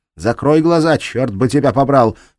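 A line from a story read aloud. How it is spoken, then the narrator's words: Shout. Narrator (Russian): крикнула Кирстен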